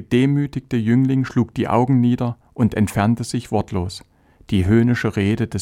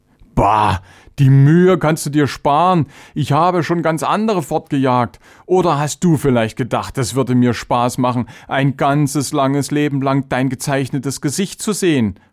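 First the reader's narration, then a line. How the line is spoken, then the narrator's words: Mocking. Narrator (German): spottete Chavenes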